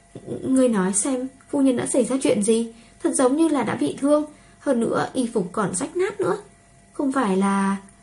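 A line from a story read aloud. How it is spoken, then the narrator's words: Trembling hushed murmur. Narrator (Vietnamese): run rẩy nhỏ giọng nghị luận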